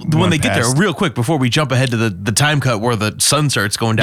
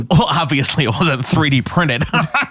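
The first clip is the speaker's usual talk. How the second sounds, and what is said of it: Put-on nerdy voice. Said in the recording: “nerd voice”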